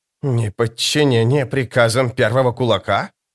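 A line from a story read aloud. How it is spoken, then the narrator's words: Hiss. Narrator (Russian): прошипел Малли Крелл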